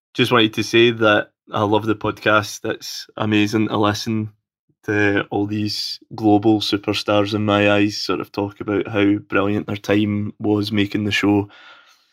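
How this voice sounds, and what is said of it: Scottish accent. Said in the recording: “I'm coming to you all the way from sunny Scotland, so I apologize if you can't understand my dulcet accent.”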